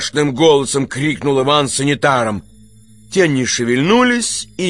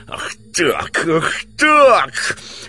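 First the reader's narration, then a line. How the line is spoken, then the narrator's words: Hoarse shouting. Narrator (Russian): хрипло кричал Иван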